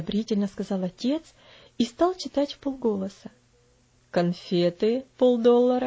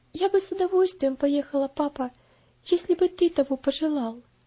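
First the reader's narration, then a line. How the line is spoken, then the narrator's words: Timid. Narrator (Russian): робко ответила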